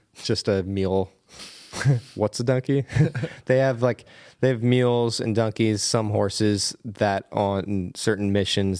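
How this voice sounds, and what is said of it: Pennsylvania accent. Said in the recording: “That's my Pennsylvania accent.”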